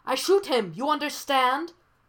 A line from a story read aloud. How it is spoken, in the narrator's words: the man yells